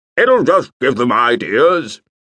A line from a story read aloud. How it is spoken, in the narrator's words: boomed